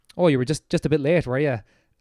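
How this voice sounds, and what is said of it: Half-convincing New Zealand accent. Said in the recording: “my half a New Zealand accent there”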